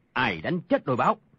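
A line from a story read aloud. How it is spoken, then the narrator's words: Angry. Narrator (Vietnamese): Tàn Cồn tức giận nói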